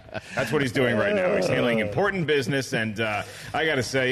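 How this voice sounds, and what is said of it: Usual voice. Nothing is said of it.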